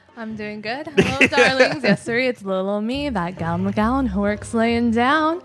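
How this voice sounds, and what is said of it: Campy gothic hostess character voice. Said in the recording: “one of the top Elvira impersonators”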